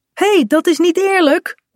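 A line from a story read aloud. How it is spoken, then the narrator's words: Calling out. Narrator (Dutch): roept Kaat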